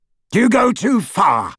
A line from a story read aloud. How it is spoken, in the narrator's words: shouted Scrimgeour